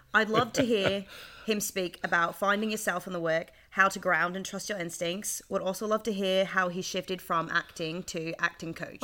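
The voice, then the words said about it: Attempted Australian accent, sounding British. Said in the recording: “in an Aussie accent ... It sounded more British ... a pretty good British accent”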